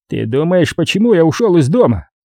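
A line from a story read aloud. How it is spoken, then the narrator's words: Growled. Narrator (Russian): прорычал Грант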